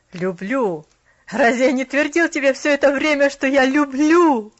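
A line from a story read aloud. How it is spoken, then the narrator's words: Laughing, slightly rueful. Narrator (Russian): рассмеялся Джон Пендлтон с легким огорчением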